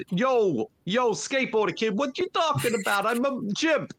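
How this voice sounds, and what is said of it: Put-on New York accent. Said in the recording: “the chip has a New York accent.”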